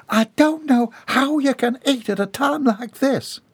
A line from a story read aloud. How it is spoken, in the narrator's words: cried Bobby Sue